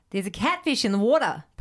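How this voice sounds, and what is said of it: Put-on Australian accent. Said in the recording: “say there's a catfish in the water in an Australian accent”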